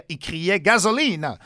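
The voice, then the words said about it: Put-on Italian accent, poorly done. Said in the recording (French): “mon accent est italien, ça marche pas ... ma reconstitution est impayable”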